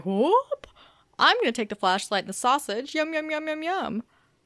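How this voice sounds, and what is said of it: Yoda impression. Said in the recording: “that's a really good impression... that was beautiful. Speaking of impressions of Yoda”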